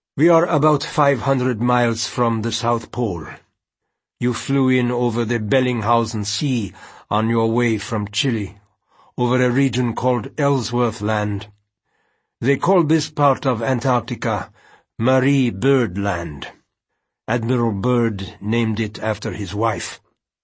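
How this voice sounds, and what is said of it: Flat voice, slight Russian accent. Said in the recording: “The man's voice was oddly flat, with a slight Russian accent”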